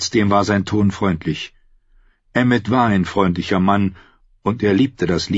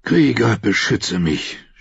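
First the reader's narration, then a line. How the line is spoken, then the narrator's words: Groaned. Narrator (German): stöhnte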